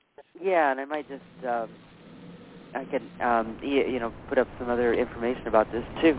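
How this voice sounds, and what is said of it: Strained, fading voice. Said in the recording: “I think my voice is getting ... I think my voice is kind of going out here”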